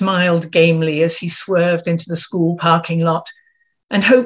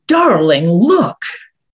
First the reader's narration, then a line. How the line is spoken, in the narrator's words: Jay's whisper boomed in my ear